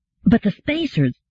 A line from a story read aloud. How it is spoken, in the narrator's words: Gladia said urgently